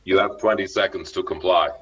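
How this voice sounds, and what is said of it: Impersonates a movie robot voice. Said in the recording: “one of my impersonations of my teenage years.”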